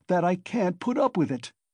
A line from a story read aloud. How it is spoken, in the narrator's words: Raskolnikov cried furiously